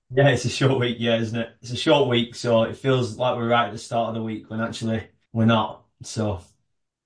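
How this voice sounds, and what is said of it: Northern English accent. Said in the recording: “My accent is a northern accent for anyone listening outside of the UK”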